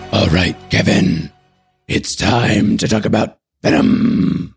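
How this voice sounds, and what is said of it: Imitation of the Venom character voice. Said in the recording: “that's a great impression ... It is terrible.”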